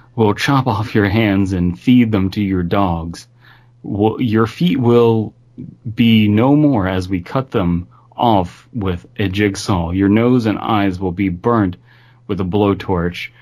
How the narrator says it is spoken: After a lot of laughing, Toyd calmed down and said

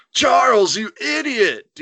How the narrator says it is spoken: Dean yelled

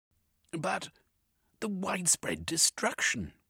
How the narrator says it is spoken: Cornucope gasped

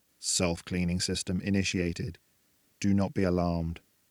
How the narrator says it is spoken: quietly announced

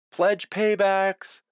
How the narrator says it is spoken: John, Tony, and I screamed in unison

